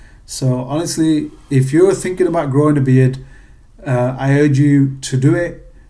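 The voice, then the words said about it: British accent. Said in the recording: “being British and moving to America, my accent was definitely a conversation starter”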